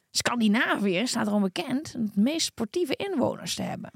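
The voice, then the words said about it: Strange put-on accent. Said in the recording (Dutch): “Wat doe je voor raar accent?”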